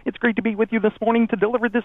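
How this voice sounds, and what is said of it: Kermit the Frog impression. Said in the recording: “do the legal ID as Kermit the Frog ... I'm sorry, Kermit the Frog.”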